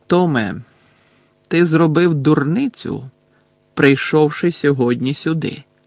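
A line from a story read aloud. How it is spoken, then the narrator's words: Calm. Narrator (Ukrainian): спокійно мовив Дамблдор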